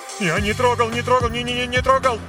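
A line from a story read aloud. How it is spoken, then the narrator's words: Rapid terrified chatter. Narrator (Russian): Затараторил он с ужасом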